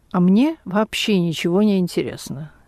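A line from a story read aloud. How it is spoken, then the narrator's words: Calm statement. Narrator (Russian): директор спокойно сказал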